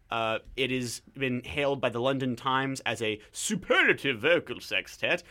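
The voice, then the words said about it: Put-on British accent. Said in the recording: “I was going for a British accent there, but I didn't know which one I was doing”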